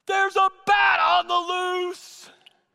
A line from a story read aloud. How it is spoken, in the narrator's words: somebody shouted out into the auditorium